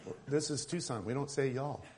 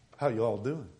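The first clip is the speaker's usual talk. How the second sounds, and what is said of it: Put-on Southern accent. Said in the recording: “all of us need to act like we're Southerners... Some people actually change their accent.”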